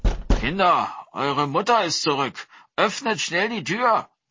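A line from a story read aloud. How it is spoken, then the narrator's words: Man calling out. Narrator (German): rief er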